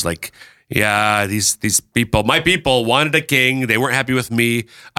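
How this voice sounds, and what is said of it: Put-on New York accent. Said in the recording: “I'm kind of breaking into a New York accent there.”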